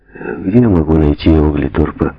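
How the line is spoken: Hesitant question. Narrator (Russian): неуверенно спросил он

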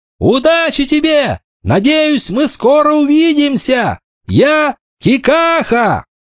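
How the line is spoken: Smiling shout. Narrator (Russian): Он улыбнулся и крикнул

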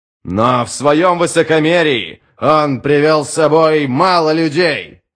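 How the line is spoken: Shouting. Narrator (Russian): крикнул Адем

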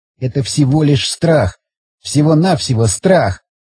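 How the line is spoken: Sighing, objecting. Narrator (Russian): Он вздохнул и тут же стал возражать

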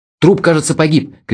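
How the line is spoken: Shout. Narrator (Russian): крикнул я

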